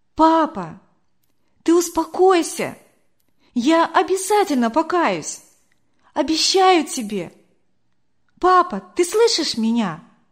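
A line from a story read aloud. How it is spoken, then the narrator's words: Loud, into the ear. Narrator (Russian): громко так ему в ухо сказала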